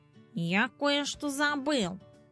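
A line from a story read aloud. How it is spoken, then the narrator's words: Muttered. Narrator (Russian): пробормотал он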